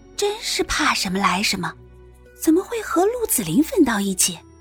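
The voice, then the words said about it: Speaking in a low voice. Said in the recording (Chinese): “小声”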